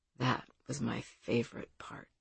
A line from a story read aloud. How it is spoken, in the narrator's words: he quietly said to her